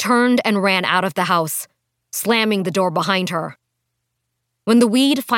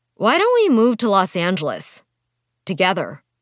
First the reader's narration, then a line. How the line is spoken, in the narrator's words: Rosie asked